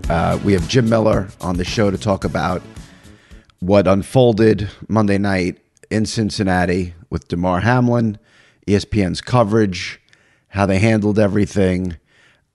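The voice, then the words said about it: Sick, strained-sounding voice. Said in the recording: “You can probably hear it. Not sounding great. A little under the weather. Been sick for a couple of weeks ... Sorry about my voice”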